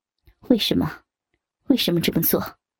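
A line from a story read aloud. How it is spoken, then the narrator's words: Cold. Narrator (Chinese): 卓文冷冷的说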